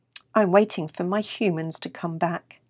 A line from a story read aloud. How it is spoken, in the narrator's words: said Tommy